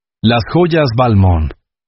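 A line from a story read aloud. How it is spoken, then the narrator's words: Flat voice. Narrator (Spanish): dijo Alaric con voz plana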